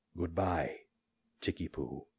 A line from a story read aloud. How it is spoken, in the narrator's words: said, tenderly